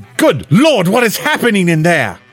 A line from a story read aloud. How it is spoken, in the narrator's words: Garrick exclaimed